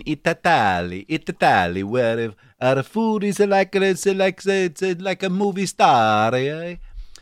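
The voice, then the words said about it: Bad put-on Italian accent. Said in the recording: “that's the worst Italian accent I've ever done. ... Yeah, it really is.”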